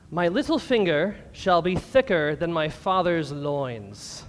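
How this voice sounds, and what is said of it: Old-fashioned King James Bible accent. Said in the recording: “You have to have the accent for King James.”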